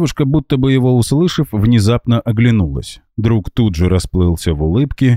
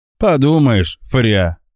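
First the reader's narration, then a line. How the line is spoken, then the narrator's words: Offended snort. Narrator (Russian): обиженно фыркнул друг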